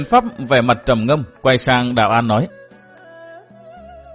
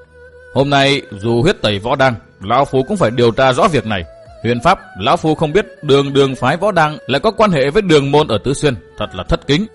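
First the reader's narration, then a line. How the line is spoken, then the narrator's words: Cold, murderous old man. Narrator (Vietnamese): Ông nhếch môi cười, nụ cười đầy sát cơ, lạnh lùng nói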